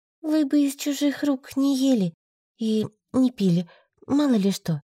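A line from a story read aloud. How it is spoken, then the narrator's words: Uncertain. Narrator (Russian): произнесла неуверенно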